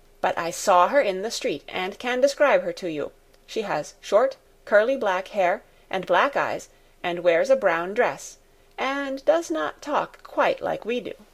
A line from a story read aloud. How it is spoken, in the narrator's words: said in a determined voice